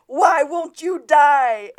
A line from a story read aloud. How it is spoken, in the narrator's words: Zapato screams